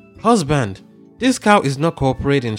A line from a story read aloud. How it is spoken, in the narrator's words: she exclaimed